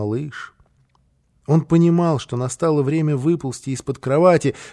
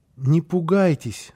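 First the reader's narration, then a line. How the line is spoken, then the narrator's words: Timid. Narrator (Russian): начал он робко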